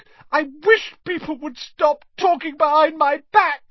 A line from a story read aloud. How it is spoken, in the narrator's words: said Myrtle, in a voice choked with tears